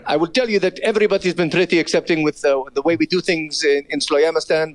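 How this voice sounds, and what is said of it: Exaggerated mixed foreign accent. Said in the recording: “you speak a broken English ... General Foreign Accent ... The accent, the accent is everything mixed together.”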